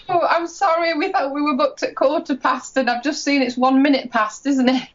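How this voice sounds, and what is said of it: British accent. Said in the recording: “She's going to have an accent. ... I get so excited about the accent. ... British accent. It's so sexy.”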